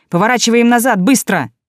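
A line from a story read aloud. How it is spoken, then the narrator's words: Shouted out. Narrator (Russian): Лион выкрикнул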